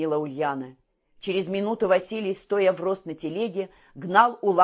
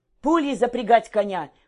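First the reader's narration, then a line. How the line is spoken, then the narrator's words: Shouted. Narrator (Russian): крикнул Василий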